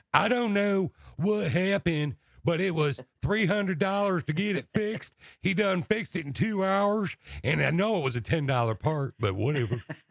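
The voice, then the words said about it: Put-on Texas accent. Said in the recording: “that's thus the Texas accent”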